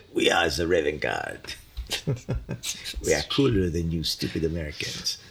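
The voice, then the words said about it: Deliberately bad French accent. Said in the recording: “French accents ... That's probably a horrible, horrible French accent”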